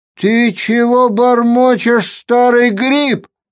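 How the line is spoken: Shouted. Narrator (Russian): крикнул Кайли

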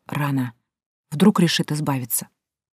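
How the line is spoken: Whispered. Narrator (Russian): Нейт прошептал

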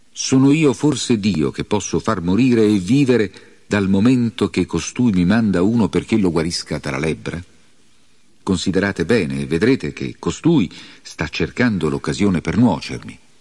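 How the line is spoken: Exclaiming. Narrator (Italian): il re di Israele esclamò

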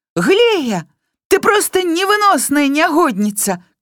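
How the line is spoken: Female shouting. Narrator (Belarusian): крычала Бімбок

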